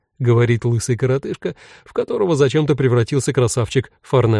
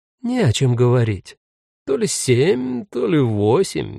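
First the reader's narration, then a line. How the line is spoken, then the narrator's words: Uncertain. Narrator (Russian): неуверенно хмурится Бьянка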